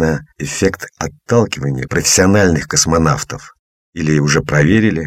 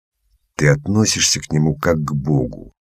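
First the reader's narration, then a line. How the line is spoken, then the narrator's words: Grumbling into ear. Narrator (Russian): пробурчал шкребун в ухо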